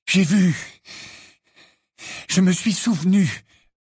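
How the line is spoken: Breathless reply. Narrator (French): répondit Harry d'une voix haletante

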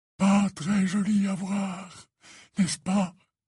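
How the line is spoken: Overwhelmed, dejected voice. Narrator (French): dit-il d'une voix accablée

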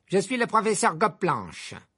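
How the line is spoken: Curt, dry. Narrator (French): répondit-elle sèchement

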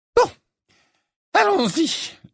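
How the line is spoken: Shrill, slightly hysterical. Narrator (French): lança le professeur Trelawney d'une voix aiguë et un peu hystérique

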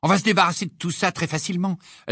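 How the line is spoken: Female exclamation. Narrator (French): s'écria

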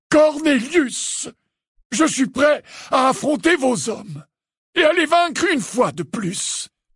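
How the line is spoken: Thundering. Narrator (French): tonna Dumbledore

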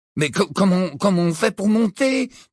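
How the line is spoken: Asked timidly. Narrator (French): demanda Ron d'une voix timide

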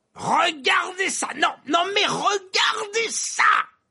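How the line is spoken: Shouting. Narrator (French): hurlait Verpé

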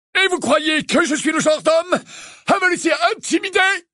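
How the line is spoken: Barked. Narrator (French): aboya l'oncle Vernon

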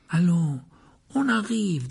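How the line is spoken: Coaxing tone. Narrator (French): dit Ron d'un ton cajoleur

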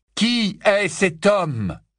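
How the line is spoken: Loud, insistent. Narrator (French): répéta Harry d'une voix forte

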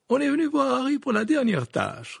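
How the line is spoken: Cheerful reply. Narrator (French): répondit Madame Wesley d'un ton joyeux

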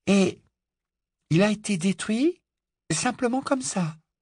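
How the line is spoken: Murmured. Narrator (French): murmura Hermione

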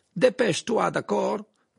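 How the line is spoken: Shouted. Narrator (French): cria Croum

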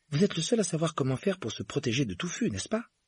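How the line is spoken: Feverish, anxious question. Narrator (French): demanda Harry d'un ton fébrile

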